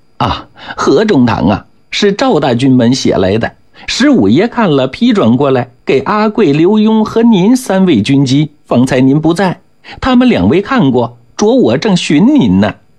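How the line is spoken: Apologetic smiling tone. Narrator (Chinese): 捕人赶忙陪笑

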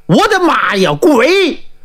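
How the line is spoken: Sudden loud scream. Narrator (Chinese): 突然大喊一声

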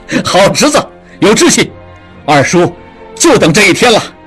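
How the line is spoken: Laughing. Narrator (Chinese): 笑道

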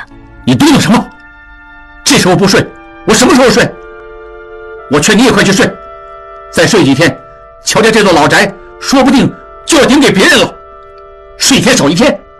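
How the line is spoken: Angry. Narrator (Chinese): 智庸又发怒了

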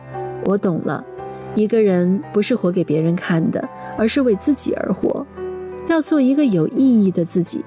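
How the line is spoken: Smiling. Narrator (Chinese): 诗人笑了，他说

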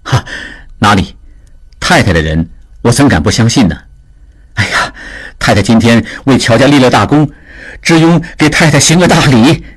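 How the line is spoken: Smiling. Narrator (Chinese): 只因 笑着说

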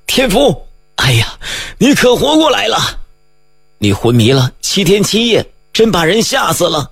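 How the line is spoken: Joyful running shouts. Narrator (Chinese): 一片欢声笑语，龙大宝、大梅、张东海等喊着

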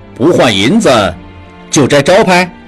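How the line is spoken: Smug clamoring. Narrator (Chinese): 小混混们更得意了，又叫嚷

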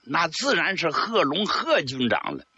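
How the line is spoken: Smiling. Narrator (Chinese): 卢东升一笑

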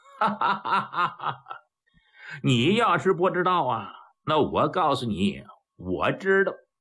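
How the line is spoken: Laughing. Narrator (Chinese): 武清一笑

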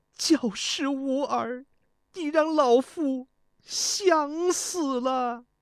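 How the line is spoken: Crying. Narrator (Chinese): 太后哭道

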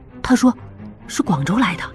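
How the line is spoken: Low voice. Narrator (Chinese): 巧姑低声说

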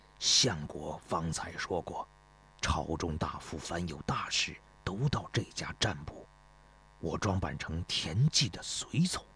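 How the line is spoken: Low voice. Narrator (Chinese): 公孙越低声说

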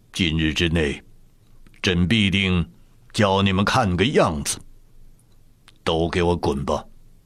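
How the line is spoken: Cold, through gritted teeth. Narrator (Chinese): 雍正咬着牙，语气淡淡地说道

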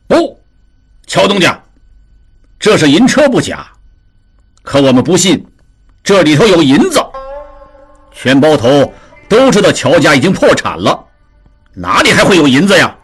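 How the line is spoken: Chaotic crowd clamor. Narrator (Chinese): 众人闻言都像梦醒过来一样乱嚷起来

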